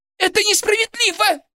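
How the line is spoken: Shrill squeal. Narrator (Russian): взвизгнула Борисова

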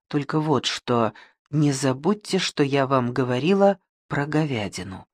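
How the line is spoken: Quiet. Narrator (Russian): тихонько добавила

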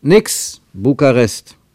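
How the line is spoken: Called out. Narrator (German): rief er

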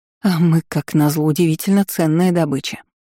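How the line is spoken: Moan. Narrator (Russian): простонала

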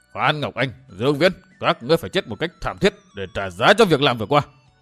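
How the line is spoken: Furious roar, gritted teeth. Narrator (Vietnamese): Thất Sát La Sát không nhẫn nại được, bèn rống lên như quỷ cuồng, vừa gằn giọng bảo

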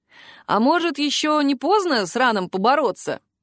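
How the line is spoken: Laughing. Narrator (Russian): рассмеялась

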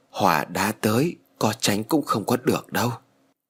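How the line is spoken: Sighing. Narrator (Vietnamese): Thầy thở dài rồi nói

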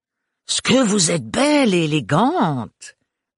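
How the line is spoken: Exclaiming. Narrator (French): s'exclama Agathe

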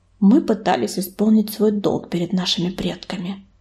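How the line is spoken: Quiet male voice. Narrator (Russian): тихо произнес он

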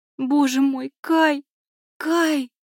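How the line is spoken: Female sobbing. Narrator (Russian): зарыдала она

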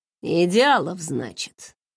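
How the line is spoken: Smiling murmur. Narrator (Russian): с улыбкой пробормотал Филипп

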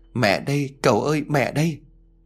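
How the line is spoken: Sobbing, trembling voice. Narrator (Vietnamese): bỗng dưng bà òa khóc, giọng nói run rẩy khác lạ

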